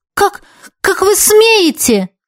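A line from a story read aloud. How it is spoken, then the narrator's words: Exclaimed reply. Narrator (Russian): воскликнула я в ответ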